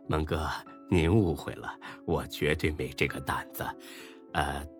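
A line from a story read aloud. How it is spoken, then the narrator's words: Apologetic, ingratiating smile. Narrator (Chinese): 丁坤一脸歉意和堆笑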